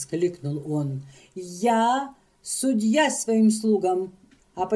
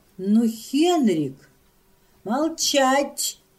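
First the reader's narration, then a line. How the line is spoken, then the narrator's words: Exclaiming. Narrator (Russian): воскликнул он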